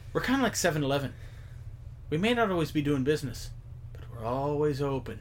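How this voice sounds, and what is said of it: Put-on accent, fairly convincing. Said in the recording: “That was a pretty good accent.”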